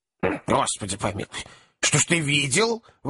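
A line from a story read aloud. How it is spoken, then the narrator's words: Old woman's alarmed exclamation. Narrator (Russian): воскликнула старая леди, встревоженная торжественным тоном дородного юноши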